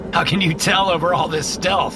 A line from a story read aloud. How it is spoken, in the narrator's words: I laugh